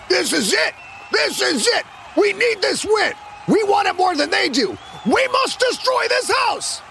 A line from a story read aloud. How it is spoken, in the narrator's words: The Krakens roared and clicked